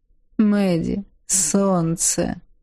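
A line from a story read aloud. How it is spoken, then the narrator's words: Purring. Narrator (Russian): мурлыкнул он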